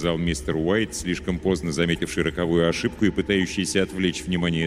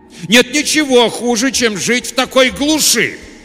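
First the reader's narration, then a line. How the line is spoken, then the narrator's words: Sudden forceful shout. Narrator (Russian): Вдруг с неожиданным напором в голосе прокричал мистер Уайт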